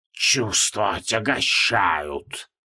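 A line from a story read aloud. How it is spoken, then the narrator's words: Insistent hiss. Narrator (Russian): продолжал настойчиво шипеть Йоксутхотх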